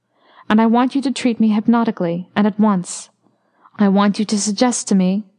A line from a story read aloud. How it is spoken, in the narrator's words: his voice became very tense